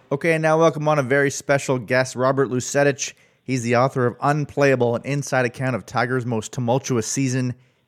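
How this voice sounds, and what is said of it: Canadian accent. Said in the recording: “love love the Canadian accent ... there's a lot of A and there's a lot of uh, the it's it's the end sound. It's just got more of a, I would say, somewhat British sound, but not uh, not British.”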